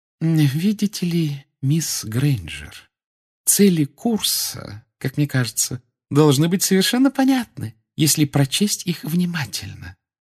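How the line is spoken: Affectedly sweet voice. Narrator (Russian): нарочито ласковым голосом сказала профессор Амбридж

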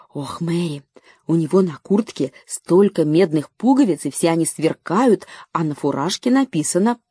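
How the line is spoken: Whisper. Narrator (Russian): Лора шепотом сказала

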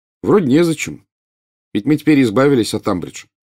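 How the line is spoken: Plain. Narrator (Russian): сказал Гарри

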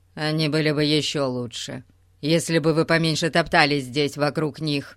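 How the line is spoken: Snapping retort. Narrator (Russian): огрызнулся мистер Таппинг

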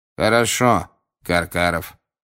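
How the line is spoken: Cold. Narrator (Russian): холодно проговорил Крауч

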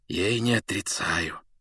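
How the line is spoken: Almost whispering. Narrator (Russian): почти шепотом сказал он

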